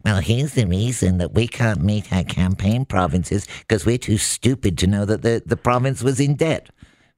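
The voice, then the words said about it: Imitates another person's voice. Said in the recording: “That was my impersonation of Doug Ford. ... it wasn't a good one.”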